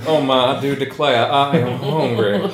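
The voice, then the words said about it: Exaggerated Southern US accent. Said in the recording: “as a southerner ... I finally heard you use your real accent ... I really speak like a fae foghorn leghorn”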